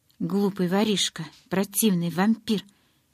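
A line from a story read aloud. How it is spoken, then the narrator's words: Growling. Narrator (Russian): прорычала я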